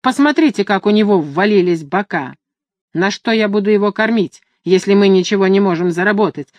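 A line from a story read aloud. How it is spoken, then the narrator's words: Irritated man. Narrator (Russian): раздраженно сказал мужчина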